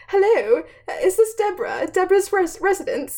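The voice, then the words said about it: Put-on British accent. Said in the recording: “I don't know why I just did a British accent.”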